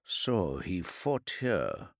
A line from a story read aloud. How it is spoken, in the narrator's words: the salamander murmured